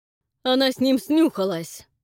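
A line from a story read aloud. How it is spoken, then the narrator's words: Sudden shout. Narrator (Russian): вдруг выкрикнул Фрэнк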